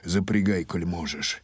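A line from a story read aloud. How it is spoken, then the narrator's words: Grumble. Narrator (Russian): Хотел бригадир отказать, но буркнул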